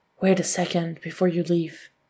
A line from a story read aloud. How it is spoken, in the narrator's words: he whispers